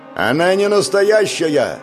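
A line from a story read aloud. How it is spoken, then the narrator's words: Loud over rushing water. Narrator (Russian): громко сказал Павел, перекрикивая шум потока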